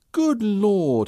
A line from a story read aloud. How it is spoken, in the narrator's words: he exclaimed when he saw the diary